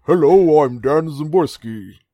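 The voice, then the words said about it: Lowered voice, bad Frasier imitation. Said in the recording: “make my voice lower ... do a really bad Frasier impression”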